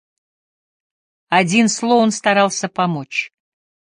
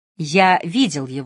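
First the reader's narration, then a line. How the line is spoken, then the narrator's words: Plain. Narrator (Russian): сказал я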